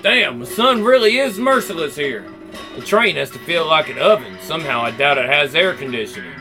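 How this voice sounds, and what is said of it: Put-on southern accent. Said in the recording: “Let's go back to the southern accent.”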